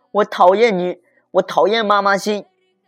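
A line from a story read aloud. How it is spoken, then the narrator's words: Child speaking loudly. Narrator (Chinese): 阿志大声的对老师说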